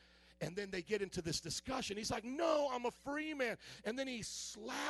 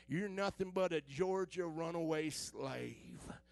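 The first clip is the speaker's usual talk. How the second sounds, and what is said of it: Put-on Southern US accent. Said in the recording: “they got their southern accent, so I'm going to do the southern accent.”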